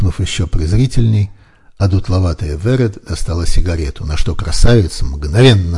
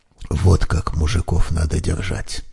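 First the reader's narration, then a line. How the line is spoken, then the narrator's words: Excited whisper. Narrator (Russian): восторженно зашептала Мариночка на ухо Гале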